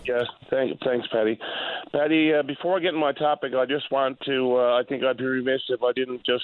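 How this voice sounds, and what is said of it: Voice sounds off from flu. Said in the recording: “I do apologize if my voice sounds a bit off there. I've been battling the worst case of the flu”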